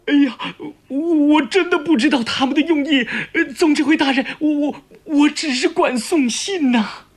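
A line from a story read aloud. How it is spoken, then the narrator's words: Frightened, pleading repeatedly. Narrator (Chinese): 那老表被众人嚷得直往后缩，连连哀求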